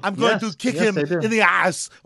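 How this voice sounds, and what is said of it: Imitates another person's voice. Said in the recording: “That was my Jean-Claude Van Damme, which I'm embarrassed about ... that impression would have made him wish he was dead.”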